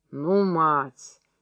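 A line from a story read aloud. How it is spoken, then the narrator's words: Displeased grumble. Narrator (Russian): недовольно буркнул Митька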